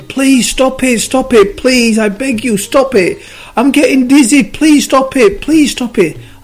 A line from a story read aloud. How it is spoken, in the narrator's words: the clay started screaming again